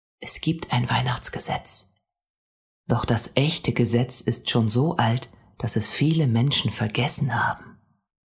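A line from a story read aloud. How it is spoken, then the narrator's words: Mysterious whisper. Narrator (German): flüsterte er geheimnisvoll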